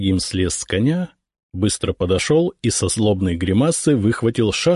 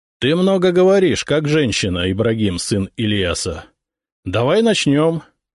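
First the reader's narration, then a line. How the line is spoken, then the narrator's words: Loud reply. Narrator (Russian): Громко ответил я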